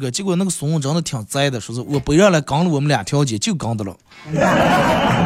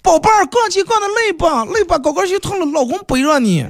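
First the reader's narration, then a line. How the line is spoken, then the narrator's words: Deliberately loud. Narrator (Chinese): 我故意大声说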